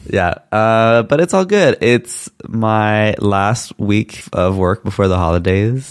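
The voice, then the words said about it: Deep, husky voice from a cold. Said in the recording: “I've been like fighting a bit of a cold, uh, so hence why my nice radio voice... Sexy radio voice”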